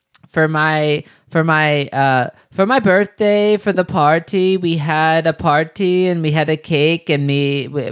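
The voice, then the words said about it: Imitates another person's halting English. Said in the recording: “I'll just do my best impression ... recordings of Yanka like preparing for the TOEFL”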